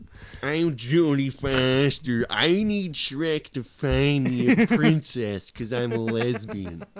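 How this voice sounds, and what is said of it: Put-on accent imitating another person. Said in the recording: “Where's that accent coming from? That's not what Jodie Foster sounds like at all.”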